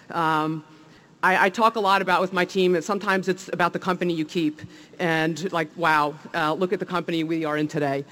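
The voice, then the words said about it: New Jersey accent. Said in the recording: “you could tell from my accent probably, I'm from New Jersey”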